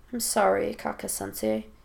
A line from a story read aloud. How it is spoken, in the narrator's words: Naruto mumbles